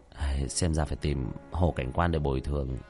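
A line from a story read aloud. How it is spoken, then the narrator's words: Muttering. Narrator (Vietnamese): Tiểu Thất lẩm bẩm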